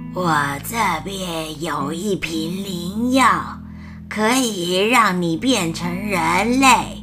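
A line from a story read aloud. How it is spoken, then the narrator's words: Hoarse, ugly witch voice. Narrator (Chinese): 乌苏拉海巫用沙哑难听的声音说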